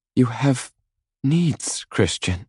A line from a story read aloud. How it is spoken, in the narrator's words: she says, her voice softer, and I know she's trying to placate me